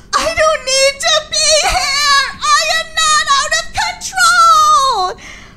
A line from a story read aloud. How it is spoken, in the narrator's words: I sobbed